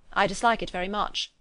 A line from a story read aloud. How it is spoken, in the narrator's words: he replied